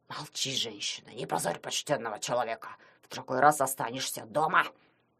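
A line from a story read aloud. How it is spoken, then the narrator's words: Hissed. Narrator (Russian): прошипел он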